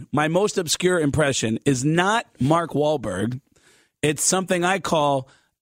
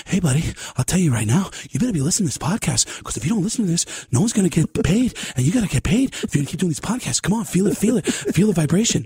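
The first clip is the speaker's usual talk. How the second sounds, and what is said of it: Breathless Mark Wahlberg impression. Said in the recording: “out of breath Mark Wahlberg ... That was a terrible, terrible out of breath Mark Wahlberg.”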